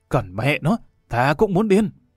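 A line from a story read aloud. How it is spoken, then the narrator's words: Tearful whisper, then loud shout. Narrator (Vietnamese): Cao Tổ thì thào than, mắt rơm rớm, đột nhiên quát lên một tiếng lớn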